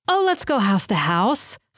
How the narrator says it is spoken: Florence exclaimed

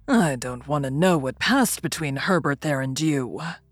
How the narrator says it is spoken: growled Drummle

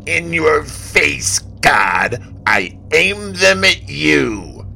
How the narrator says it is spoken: the thief ... hollered

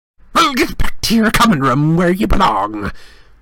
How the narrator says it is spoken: snapped Filch

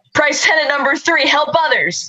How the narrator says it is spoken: Cal yells into Bass's brain

